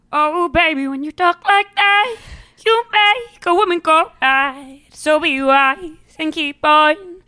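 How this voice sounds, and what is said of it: Imitates another person's singing voice. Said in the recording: “my Shakira impression”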